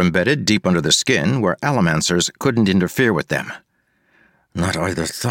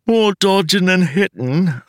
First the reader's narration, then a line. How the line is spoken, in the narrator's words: the woman asked Wax with a yawn